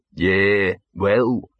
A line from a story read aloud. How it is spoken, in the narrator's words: he said gloomily